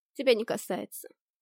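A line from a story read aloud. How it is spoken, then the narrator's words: Snorting. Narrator (Russian): фыркнула я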